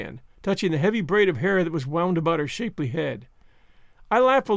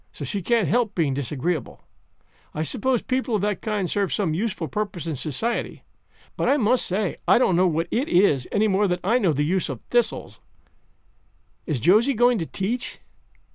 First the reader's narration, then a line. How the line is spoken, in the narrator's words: said Marilla sharply